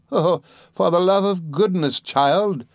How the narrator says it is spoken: exclaimed my aunt

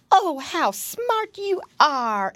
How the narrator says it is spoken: exclaimed Nurse Jane

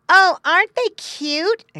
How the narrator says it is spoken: exclaimed a girl

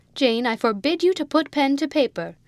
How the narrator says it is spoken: cried the Countess

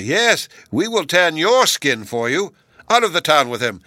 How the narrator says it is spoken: they shouted

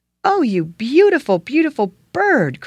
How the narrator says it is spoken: cried he

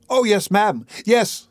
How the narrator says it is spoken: replied Oliver eagerly

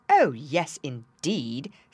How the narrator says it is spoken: said Meteor in a very superior tone

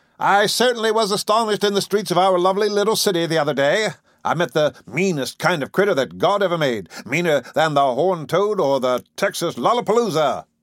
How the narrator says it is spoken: He smiled on his warm personal friends and fellow boosters and boomed

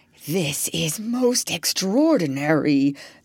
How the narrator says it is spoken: the doctor kept muttering to himself

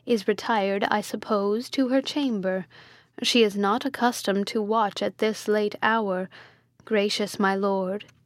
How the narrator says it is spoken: said Hippolyta calmly

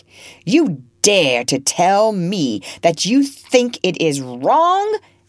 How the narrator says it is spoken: he roared at last, crimson with passion

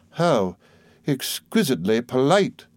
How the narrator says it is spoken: exclaimed Miss Murdstone

